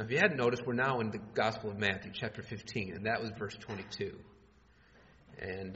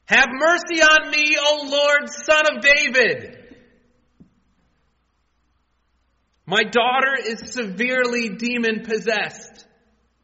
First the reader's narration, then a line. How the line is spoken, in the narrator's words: you yell out